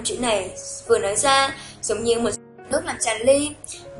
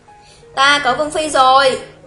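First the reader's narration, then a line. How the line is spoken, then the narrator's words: Loud speech. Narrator (Vietnamese): Xuất Trần lớn tiếng nói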